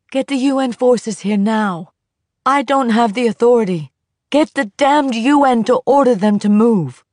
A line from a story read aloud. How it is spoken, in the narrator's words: yelling